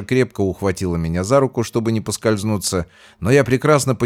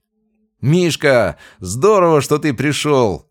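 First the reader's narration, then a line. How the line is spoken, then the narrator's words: Shouting. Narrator (Russian): закричал Макс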